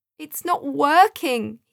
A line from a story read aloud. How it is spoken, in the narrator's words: he cried, feeling the heat from the live fire as scalding steam swirled all around them